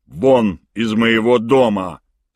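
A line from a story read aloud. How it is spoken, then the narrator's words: Cold, menacing. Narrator (Russian): сказал мистер Томпсон, грозно блеснув серыми холодными глазами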